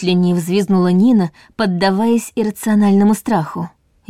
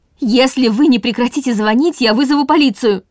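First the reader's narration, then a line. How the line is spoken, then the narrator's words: Shouting through door. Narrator (Russian): крикнула она через дверь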